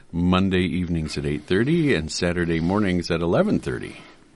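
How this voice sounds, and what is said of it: Smooth FM radio announcer voice. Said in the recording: “Oh, I love that radio voice. ... that's my FM voice ... You're listening to the dulcet tones.”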